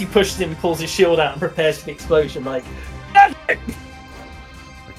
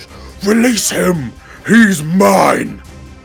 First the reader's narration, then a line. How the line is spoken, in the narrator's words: she bellows